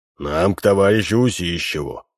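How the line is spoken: Stern. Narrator (Russian): строго сказал Минц

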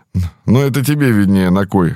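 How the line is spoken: Snorting. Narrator (Russian): хмыкнул Михалыч

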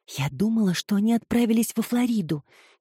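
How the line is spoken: Quiet remark. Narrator (Russian): тихо заметила Филомена

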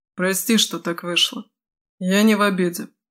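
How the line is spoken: Gruff mutter. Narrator (Russian): буркнул Крет

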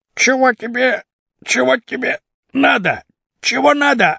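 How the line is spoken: Defensive protest. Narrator (Russian): отбивался Хрипун

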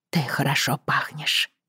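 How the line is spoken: Whisper. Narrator (Russian): прошептала Бриана

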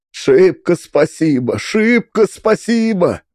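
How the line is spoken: Exclaimed. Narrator (Russian): воскликнул он

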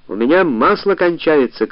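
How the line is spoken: Shouting. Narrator (Russian): крикнула я

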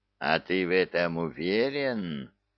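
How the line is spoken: Growl. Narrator (Russian): прорычал Кевин

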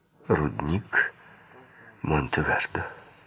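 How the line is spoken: Trembling voice. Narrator (Russian): дрожащим голосом сказала сирена

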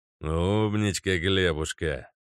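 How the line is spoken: Joyful purr. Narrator (Russian): Радостно промурлыкал 13-й

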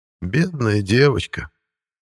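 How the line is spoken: Colonel sighing. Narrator (Russian): вздохнул полковник

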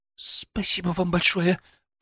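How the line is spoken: Embarrassed babbling. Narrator (Russian): пролепетала, все еще красная, как рак

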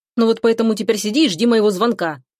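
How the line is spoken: Angry curt retort. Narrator (Russian): бросает зло друг

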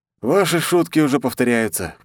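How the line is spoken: Snort. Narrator (Russian): хмыкнул я

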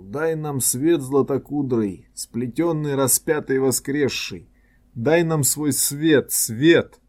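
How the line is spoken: Pleading exclamation. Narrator (Russian): с мольбой, поднял руки и воскликнул

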